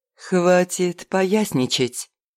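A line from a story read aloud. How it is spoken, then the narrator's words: Gentle command. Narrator (Russian): Мягко велела княгиня по-русски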